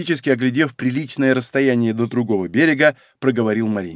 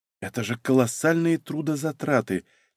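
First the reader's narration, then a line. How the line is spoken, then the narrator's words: Quiet. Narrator (Russian): тихо проговорила Софья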